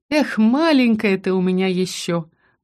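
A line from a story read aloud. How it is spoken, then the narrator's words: Tender sigh. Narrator (Russian): вздохнула Тин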